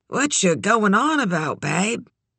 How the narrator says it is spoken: she said drowsily, the shit smell of her dry mouth

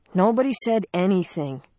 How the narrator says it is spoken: Sarah said wearily

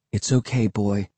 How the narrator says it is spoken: I said quietly

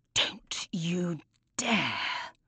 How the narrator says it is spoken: hisses

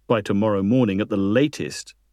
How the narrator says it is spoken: Duke replied

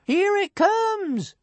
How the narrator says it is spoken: shouted somebody

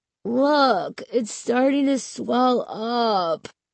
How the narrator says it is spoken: he groaned

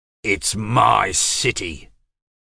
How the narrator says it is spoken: said James through clenched teeth

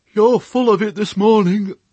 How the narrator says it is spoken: said Fly with a yawn

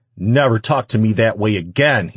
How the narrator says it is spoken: he shouted

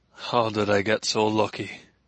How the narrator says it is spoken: Rainey murmured

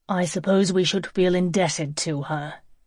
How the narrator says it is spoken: said grimly

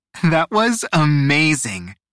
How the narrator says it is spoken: Nia laughed once the coast was clear

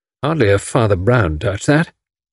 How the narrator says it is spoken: remarked gloomily

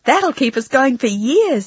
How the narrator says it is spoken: exclaimed Maddie

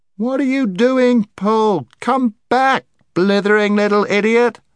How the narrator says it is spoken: shouted Scrub

